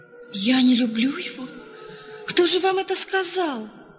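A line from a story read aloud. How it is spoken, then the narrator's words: Exclaimed. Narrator (Russian): воскликнула она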